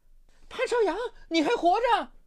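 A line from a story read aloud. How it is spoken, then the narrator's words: Shout. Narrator (Chinese): 这一声喊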